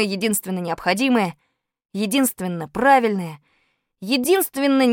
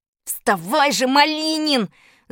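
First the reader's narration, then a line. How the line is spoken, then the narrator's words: Frantic trembling yell. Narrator (Russian): завопил я не своим голосом, весь дрожа от нетерпения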